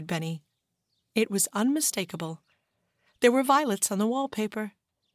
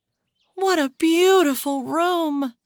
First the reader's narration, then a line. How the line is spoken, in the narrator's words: sighed Violet